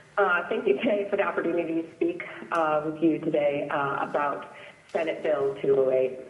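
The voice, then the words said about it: Rough, sick-sounding voice. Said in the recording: “apologize for my voice. I've been home with the flu for a week.”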